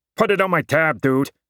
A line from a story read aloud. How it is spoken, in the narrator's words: I grumbled something snide under my breath